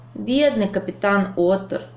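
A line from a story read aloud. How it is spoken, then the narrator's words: Sigh. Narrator (Russian): вздохнул Лапик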